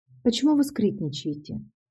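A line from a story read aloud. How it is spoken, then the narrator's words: Sleepy question. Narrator (Russian): спросила сонным голосом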